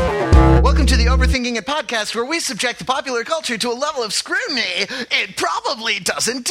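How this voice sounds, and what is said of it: Usual voice. Nothing is said of it.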